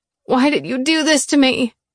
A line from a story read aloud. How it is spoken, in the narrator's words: I groaned